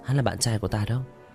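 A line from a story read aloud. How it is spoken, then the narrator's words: Gently smiling. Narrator (Vietnamese): Đỗ Nguyệt Như khẽ mỉm cười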